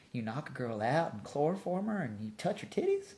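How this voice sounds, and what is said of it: Put-on Southern accent. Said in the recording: “I use a southern accent.”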